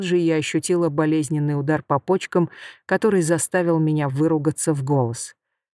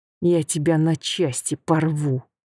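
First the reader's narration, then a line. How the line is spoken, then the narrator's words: Through gritted teeth. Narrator (Russian): процедила я сквозь зубы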